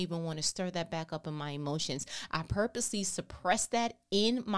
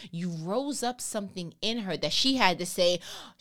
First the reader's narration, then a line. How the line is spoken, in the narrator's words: she cried